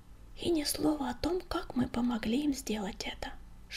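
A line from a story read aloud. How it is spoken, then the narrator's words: Whisper. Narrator (Russian): шепнул Крутобок Огнегриву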